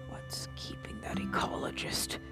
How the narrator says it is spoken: The Duke muttered

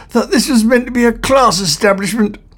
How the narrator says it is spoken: gasped Ford

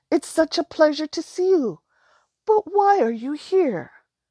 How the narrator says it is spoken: she exclaimed

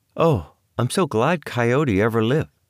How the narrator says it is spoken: sighed Juanita

